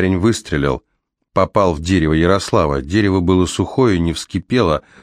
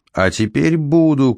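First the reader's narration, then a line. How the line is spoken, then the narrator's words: Shouted. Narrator (Russian): крикнул Ярослав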